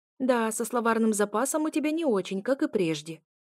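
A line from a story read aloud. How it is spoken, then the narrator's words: Snorting. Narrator (Russian): хмыкнул Рыбин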